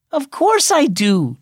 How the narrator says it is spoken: Jordan exclaimed

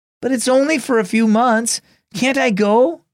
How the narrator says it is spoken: Kingston pleaded

